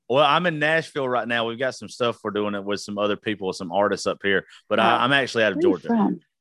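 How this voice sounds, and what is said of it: Southern US accent. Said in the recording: “It's the accent. I've been trying to figure out people's accents. Y'all say my name in the South”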